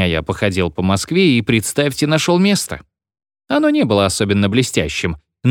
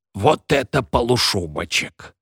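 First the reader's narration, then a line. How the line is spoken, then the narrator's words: Admiring whisper. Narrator (Russian): восхищенный шепот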